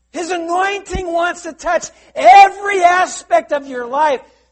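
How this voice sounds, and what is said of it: Raised, loud preaching voice. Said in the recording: “There's a reason why I'm raising my voice.”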